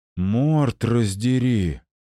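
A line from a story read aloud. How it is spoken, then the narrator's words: Exhaled exclamation. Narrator (Russian): выдохнул Алекс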